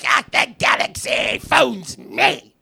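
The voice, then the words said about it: Imitates Emperor Palpatine's voice. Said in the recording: “that was a good Palpatine impression”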